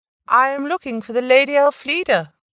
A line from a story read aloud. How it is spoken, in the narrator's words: called out